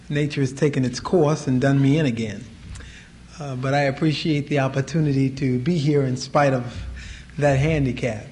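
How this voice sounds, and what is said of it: Hoarse, squeaky voice. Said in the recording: “If you hear my voice squeak a little bit tonight, it's because I'm hoarse.”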